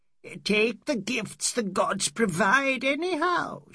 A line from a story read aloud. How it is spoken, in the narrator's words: screeched